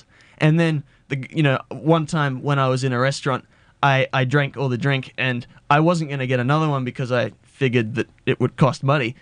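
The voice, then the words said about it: Australian accent. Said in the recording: “I'm not going to use an American accent... my Australian accent”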